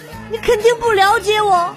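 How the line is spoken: Tearful. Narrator (Chinese): 她哭了，说

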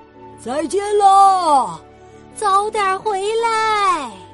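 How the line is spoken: Loud shout. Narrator (Chinese): 大象们高声喊道

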